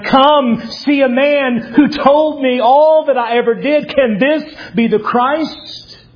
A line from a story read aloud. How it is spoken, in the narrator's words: in shock, runs back into the village shouting